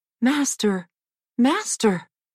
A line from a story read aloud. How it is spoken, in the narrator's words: the golden harp cried out